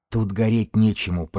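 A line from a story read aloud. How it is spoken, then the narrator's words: Hoarse wheeze. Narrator (Russian): прохрипел книжник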